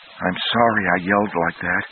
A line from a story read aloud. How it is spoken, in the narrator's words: Naomi whispered